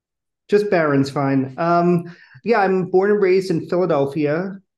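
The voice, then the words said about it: Philadelphia accent. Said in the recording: “I really love your accent”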